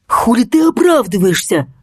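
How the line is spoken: Angry hiss. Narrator (Russian): зло прошипел Кокс

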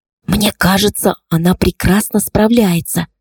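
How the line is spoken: Whisper in ear. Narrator (Russian): шепнула я ей, наклонившись к уху

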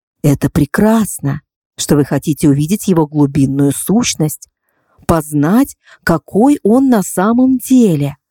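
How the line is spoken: Soft reply. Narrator (Russian): мягко ответила Тиара

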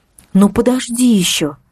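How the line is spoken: Soothing. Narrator (Russian): сказала я, пытаясь предупредить новый шквал рыданий

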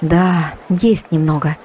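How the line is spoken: Smiling reply. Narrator (Russian): улыбнулась она в ответ

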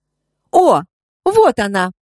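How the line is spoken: Exclaimed at last. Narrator (Russian): воскликнула подруга наконец

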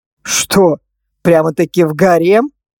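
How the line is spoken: Skeptical snort. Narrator (Russian): хмыкнул режиссер, скептически посмотрев на меня

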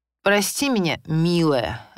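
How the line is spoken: Exaggeratedly sugary voice. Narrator (Russian): обратился он к супруге подчеркнуто слащавым голосом

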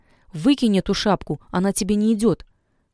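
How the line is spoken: Sharp. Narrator (Russian): Сердцеед резко говорит девушке

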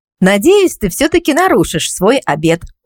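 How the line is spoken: Smiling after laughter. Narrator (Russian): улыбнулась я, когда мы обе просмеялись

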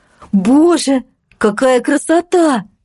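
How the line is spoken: Admiring exclamation. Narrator (Russian): воскликнула Катя

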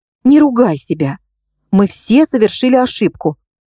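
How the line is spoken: Deliberately calm. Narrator (Russian): сказала я как можно более спокойным тоном

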